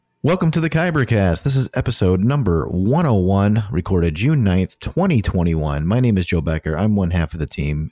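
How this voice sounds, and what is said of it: Tired late-night radio voice. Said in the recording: “I have kind of like late night radio voice. It's it's different ... I'm tired”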